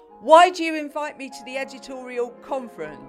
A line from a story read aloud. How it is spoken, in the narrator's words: shouted feisty Janet